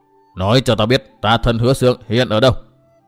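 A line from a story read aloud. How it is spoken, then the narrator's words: Icy, demanding more than threatening. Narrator (Vietnamese): Nữ quái lại cất giọng lạnh lùng băng giá, nhưng lần này trong giọng nói ấy lại như có vẻ yêu cầu nhiều hơn dọa dẫm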